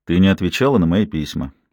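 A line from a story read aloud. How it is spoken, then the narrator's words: Quiet. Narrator (Russian): тихо произнес он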